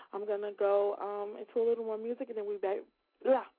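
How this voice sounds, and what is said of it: Very fast, excited speech. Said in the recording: “I'm talking so fast. I'm so excited.”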